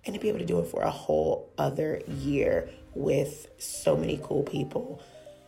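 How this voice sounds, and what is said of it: Raspy, hoarse voice. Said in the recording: “I look forward in 2020 to having my voice back officially, because this is now the 10th consecutive week where my voice has either been gone, raspy, or hoarse.”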